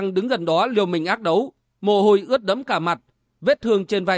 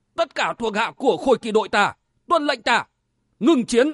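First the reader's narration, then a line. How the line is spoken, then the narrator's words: Strained loud shout. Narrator (Vietnamese): Thường Đại Nghĩa cố dồn sức quát to lên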